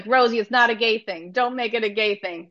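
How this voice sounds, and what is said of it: Imitates another person's voice. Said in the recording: “my Penny impression. That's very bad.”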